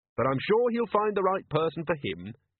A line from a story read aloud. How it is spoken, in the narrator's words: Carrot added cheerfully